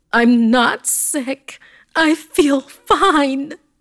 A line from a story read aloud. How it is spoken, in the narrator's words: I heard her scream